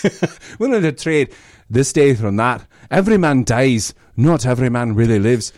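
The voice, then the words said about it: Put-on Scottish accent, throaty. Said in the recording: “I feel like I do a pretty good Scottish accent. ... that's good. ... Back of your throat.”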